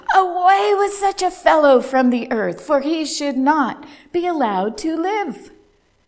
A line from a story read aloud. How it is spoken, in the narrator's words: they shouted